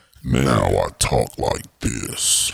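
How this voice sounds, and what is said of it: Exaggerated very deep voice. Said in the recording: “Yo, you your voice is real deep, dog... Deeper than my balls.”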